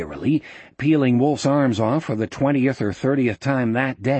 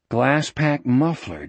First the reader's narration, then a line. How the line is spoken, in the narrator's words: Jack said, thinking wearily